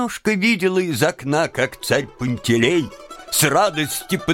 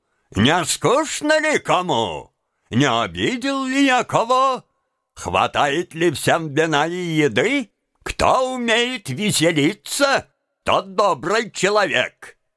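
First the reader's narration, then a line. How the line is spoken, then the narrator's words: Cheerful patter. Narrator (Russian): весело приговаривал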